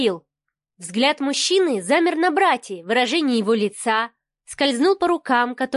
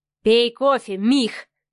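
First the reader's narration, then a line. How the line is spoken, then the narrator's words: Through gritted teeth. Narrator (Russian): процедил Адмиралов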